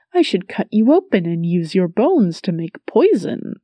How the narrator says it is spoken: the Sith giggled

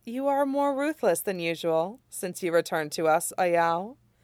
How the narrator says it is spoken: Jiang Yanli says, laughing

